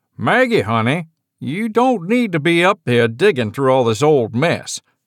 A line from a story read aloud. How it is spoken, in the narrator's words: called Jasper from the bottom of the stairs, his voice carrying that familiar drawl